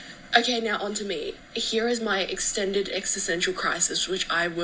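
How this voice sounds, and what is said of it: Usual voice. Nothing is said of it.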